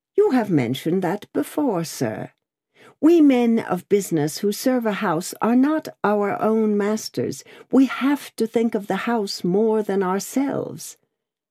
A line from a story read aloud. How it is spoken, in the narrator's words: Lorry reddened and said warmly